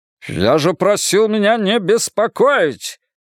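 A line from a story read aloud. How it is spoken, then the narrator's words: Barking. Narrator (Russian): рявкнул Браун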